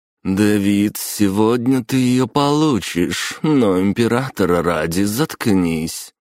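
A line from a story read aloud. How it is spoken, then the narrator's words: Through gritted teeth. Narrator (Russian): процедила герцогиня Львова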